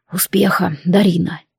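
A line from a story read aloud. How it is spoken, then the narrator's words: Sincere quiet dragon. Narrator (Russian): искренне и негромко произнес дракон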